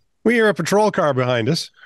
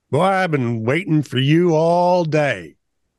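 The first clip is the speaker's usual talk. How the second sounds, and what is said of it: Country accent. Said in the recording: “says in a country accent with a grin on his face”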